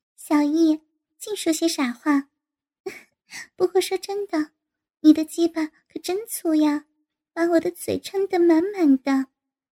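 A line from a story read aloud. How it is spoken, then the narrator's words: Laughing. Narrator (Chinese): 陆婷婷笑道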